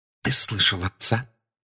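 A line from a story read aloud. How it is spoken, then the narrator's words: Whispered. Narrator (Russian): прошептала миссис Уизли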